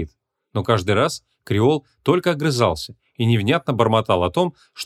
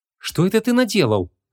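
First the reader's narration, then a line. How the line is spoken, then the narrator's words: Confused question. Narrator (Russian): растерянно спросила Вон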